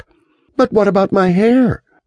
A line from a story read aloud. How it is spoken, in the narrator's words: Miriam exclaimed